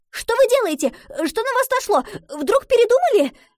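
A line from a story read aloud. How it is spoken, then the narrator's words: Rapid chattering. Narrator (Russian): Затараторила Гретхен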